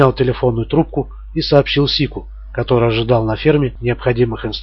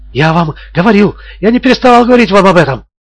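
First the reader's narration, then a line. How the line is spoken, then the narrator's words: Furious shouting. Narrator (Russian): с бешенством закричал Бордингтон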